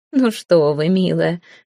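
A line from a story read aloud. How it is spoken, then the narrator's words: Women laughing. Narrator (Russian): рассмеялись женщины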